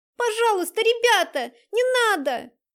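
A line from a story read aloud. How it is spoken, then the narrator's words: Shout. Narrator (Russian): закричала Дайнека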